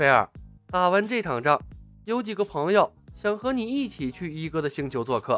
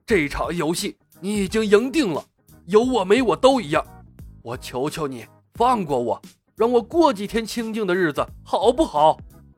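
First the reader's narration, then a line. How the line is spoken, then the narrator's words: Angry roar. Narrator (Chinese): 奎尔愤怒地咆哮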